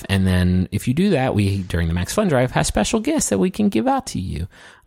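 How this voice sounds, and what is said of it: Baby-like talking voice. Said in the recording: “talking like an infant”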